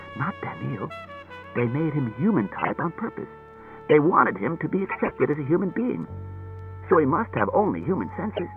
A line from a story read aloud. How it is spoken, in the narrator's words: He whispered